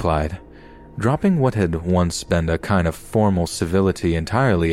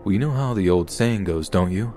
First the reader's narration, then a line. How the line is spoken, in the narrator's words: His voice was smooth, just creepily calm, like there was no emotion behind it whatsoever